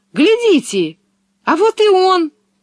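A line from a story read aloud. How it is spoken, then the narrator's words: Shouting. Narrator (Russian): закричала она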